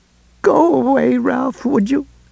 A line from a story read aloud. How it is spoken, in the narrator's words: She asked in a thick, choked voice